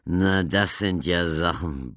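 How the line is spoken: Forester's gruff grumble. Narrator (German): brummte der Oberförster nur

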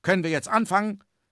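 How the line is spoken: Cloud calling out. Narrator (German): rief die Wolke

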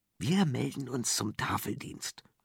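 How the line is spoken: Whispering. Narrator (German): fuhr Mick flüsternd fort

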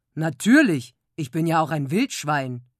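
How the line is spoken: Grunting. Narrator (German): grunzte Hertha

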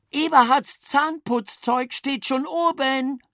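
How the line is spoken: Calling after. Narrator (German): rief Mama uns nach

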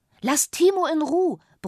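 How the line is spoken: Bellowed. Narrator (German): brüllte sie

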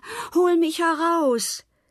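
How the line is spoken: Calling out. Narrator (German): rief er

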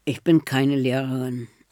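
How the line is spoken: Creaky voice. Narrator (German): sagt Enne nach einer Weile mit ihrer knarrenden Stimme

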